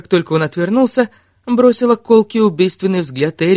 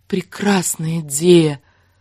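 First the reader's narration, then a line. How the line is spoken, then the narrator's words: Tender drawl. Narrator (Russian): протянула она, нежно улыбаясь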